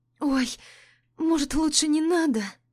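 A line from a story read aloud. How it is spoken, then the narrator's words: Breathy exhale. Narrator (Russian): выдохнула я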